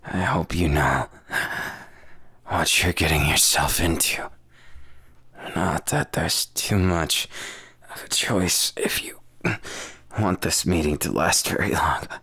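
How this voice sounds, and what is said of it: Sultry, seductive voice. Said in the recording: “my voice got a little sexier”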